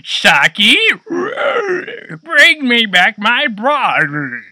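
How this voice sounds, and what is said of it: Weird strained villain voice impression. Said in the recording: “it was like that weird voice modulation ... It fucking hurts my throat now”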